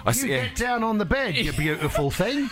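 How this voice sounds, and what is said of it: Exaggerated put-on British accent. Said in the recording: “put on a British accent ... So I tried British. It was awful. ... I sounded like Dick Van Dyke from Mary Poppins.”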